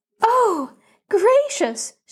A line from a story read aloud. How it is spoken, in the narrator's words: she gasped